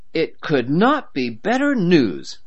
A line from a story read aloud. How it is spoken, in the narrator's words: Harry exclaimed